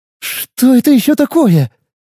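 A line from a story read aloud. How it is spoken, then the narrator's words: Nervous exclamation. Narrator (Russian): нервно воскликнула Зоя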